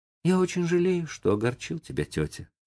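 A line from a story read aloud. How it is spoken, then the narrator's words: Thoughtful, remorseful. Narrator (Russian): сказал Том задумчиво и с раскаянием в голосе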